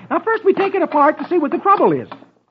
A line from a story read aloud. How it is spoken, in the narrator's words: he says cheerfully